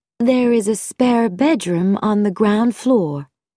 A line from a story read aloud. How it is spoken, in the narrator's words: said in a cool voice with a slight American accent